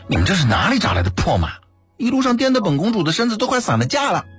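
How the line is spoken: Mock-angry complaint. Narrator (Chinese): 南宫煞有介事地运怒道

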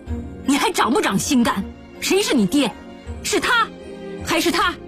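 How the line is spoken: Angry shouting. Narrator (Chinese): 嘉平来了气，叫道

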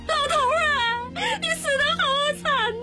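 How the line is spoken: Terrified old woman's wail. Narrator (Chinese): 老太婆吓得一声禁住，哭都哭不出来，愣了不知多少时候才大叫一声

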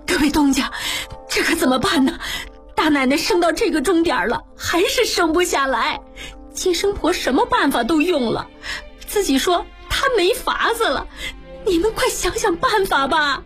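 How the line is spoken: Crying. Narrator (Chinese): 侯妈哭道

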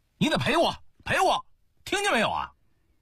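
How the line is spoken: Angry shouting. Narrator (Chinese): 一个愤怒的声音在叫

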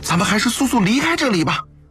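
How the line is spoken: Frightened shout. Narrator (Chinese): 另一个女道士 惶恐地对楚服喊

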